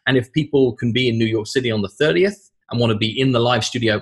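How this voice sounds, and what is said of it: British accent. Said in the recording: “I enjoyed listening to your British accent for an hour”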